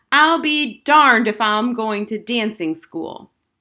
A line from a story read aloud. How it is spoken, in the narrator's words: suddenly Harriet screamed